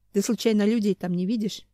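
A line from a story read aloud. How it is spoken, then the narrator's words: Plain question. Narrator (Russian): спросил он Хью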